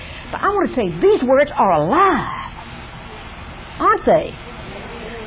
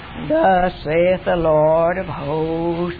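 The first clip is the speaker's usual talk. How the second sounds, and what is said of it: Solemn formal preacher voice. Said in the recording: “in a nice Presbyterian voice, ... hallowed, you know, Sunday morning, the black robe kind”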